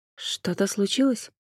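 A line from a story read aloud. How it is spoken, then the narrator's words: Quiet question. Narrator (Russian): тихо спросила Джен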